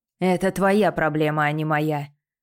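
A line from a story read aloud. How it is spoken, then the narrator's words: Growled. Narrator (Russian): прорычал Дэймон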